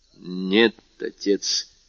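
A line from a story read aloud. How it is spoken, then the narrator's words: Muttered. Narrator (Russian): пробормотал Вильфор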